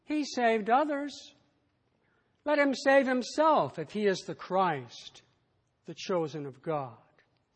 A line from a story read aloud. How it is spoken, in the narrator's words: even the rulers sneered at him, saying